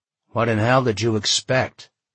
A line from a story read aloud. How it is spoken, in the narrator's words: he grumbled, heart still racing a bit